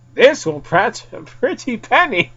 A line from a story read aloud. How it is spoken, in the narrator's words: said before giggling to herself